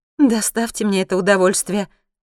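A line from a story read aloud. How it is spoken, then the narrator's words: Joyful request. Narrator (Russian): радостно просит Ваишали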